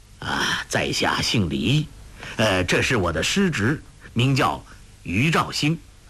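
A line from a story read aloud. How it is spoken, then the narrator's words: Old voice. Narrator (Chinese): 那声音苍老的人说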